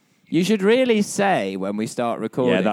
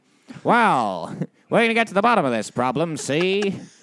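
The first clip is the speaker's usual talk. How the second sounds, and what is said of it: Old-timey 1930s gangster-style voice. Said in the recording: “Why am I suddenly like a 1930s speakeasy guy? ... You sound like a 1950s advert.”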